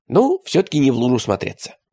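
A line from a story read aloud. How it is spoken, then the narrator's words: Plain. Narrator (Russian): сказал Радищев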